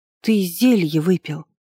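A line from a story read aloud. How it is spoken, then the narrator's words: Accusing. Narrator (Russian): обвинительно произнесла я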